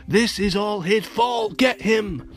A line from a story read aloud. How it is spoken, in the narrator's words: The mayor shouted